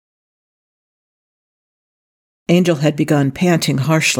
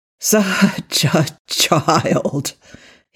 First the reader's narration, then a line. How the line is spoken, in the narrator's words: he groaned